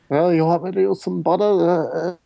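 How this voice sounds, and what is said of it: Poor imitation of another person's voice. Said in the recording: “terrible impression ... Was that a good Marlon Brando impersonation? ... No.”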